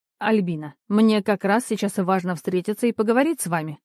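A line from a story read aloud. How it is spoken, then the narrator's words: Firm tone. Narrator (Russian): твердым тоном сказала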